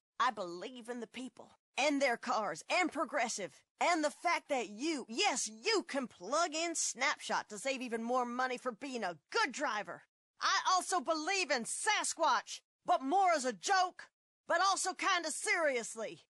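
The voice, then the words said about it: Politician giving a speech. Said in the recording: “my impression of a politician”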